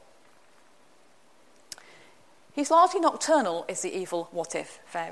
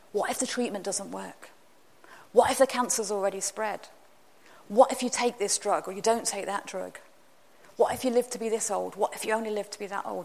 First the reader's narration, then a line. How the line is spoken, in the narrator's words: whisper into my ear